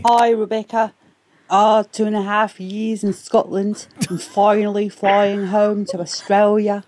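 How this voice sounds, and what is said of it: Put-on accent that slips. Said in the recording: “I'm so sorry about my accent. ... It slowly got lost there. Yeah. At the start, I almost believed it.”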